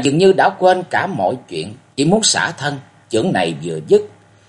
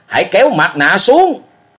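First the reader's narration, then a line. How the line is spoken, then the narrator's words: Loud roar. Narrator (Vietnamese): gầm lớn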